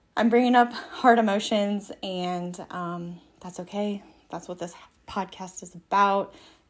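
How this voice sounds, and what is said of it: Out of breath, breathy speech. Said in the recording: “I'm a little bit out of breath”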